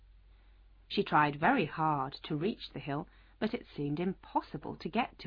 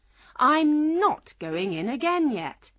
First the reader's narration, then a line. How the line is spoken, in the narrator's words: she told the house crossly